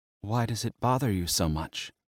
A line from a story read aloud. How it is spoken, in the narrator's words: she whispered